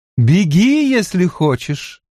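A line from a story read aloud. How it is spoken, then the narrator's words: Girl calling after. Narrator (Russian): крикнула девушка ему вдогонку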